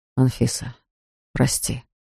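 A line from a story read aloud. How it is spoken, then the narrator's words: Said quietly. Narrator (Russian): Он ... тихо сказал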